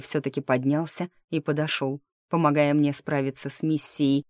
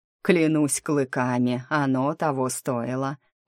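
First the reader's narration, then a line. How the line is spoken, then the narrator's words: Groaned. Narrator (Russian): простонал Таор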